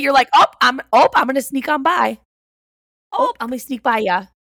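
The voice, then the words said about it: Heavy exaggerated regional accent. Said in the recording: “You say that with such a heavy accent. ... Accentuating it as if I do.”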